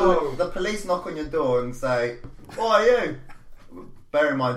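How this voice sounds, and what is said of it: Usual voice. Nothing is said of it.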